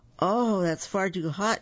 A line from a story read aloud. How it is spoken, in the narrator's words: exclaimed Goldilocks